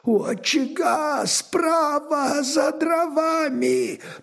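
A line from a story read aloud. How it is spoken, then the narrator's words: Hoarse, barely audible rasp. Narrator (Russian): прохрипел едва слышно Зигни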